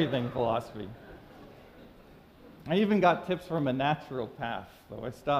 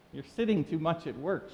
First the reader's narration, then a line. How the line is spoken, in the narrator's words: she said